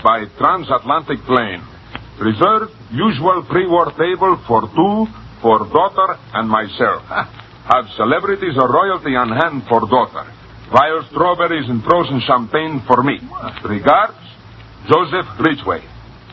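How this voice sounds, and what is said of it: Put-on Russian accent. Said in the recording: “Read it with an accent, please. ... A Russian accent.”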